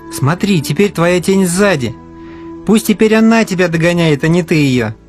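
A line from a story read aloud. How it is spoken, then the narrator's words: Laughing. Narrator (Russian): засмеялся Алеша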